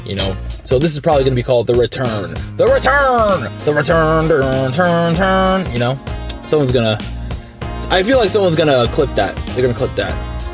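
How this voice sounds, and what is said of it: Very fast, rushed speech. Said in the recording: “why am I talking so fast? ... I normally talk way slower than this, and now I can't help myself, but I'm just, you know, going really fast. I'm trying not to go too fast”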